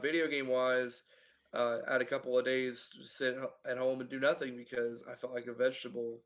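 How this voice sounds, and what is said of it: Sick-sounding voice. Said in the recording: “as you can tell by my voice, I've been sick again. I caught the dreaded RSV.”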